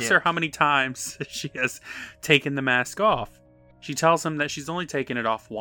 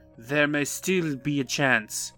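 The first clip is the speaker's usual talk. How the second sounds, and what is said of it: Attempted vaguely Russian-sounding accent. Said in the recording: “I'm trying to do an accent because he has an accent, but I don't know what accent he's doing ... I feel like it's like Russian or something. I'm not sure.”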